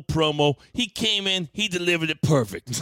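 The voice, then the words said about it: Imitates another person's voice. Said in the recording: “my Jason impression”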